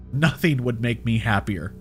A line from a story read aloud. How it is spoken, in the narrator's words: I said